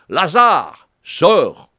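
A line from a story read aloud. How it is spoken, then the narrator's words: Loud shout. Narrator (French): il cria d'une voix forte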